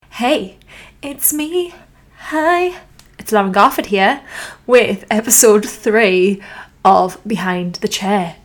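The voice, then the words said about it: American-sounding accent. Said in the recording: “sound really American”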